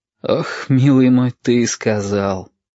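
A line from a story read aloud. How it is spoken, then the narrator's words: Bitter sigh. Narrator (Russian): горько выдохнул Валентин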